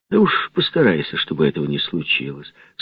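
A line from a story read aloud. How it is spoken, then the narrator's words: Calm but firm. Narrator (Russian): сказал голос спокойно, но твердо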